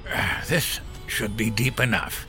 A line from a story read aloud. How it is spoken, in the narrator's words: Henry panted